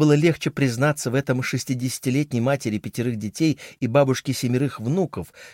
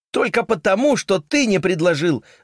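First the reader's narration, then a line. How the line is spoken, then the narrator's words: Roared. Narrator (Russian): взревела Джоан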